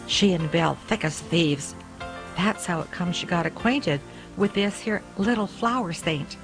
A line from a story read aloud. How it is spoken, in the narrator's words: Then he added almost in a whisper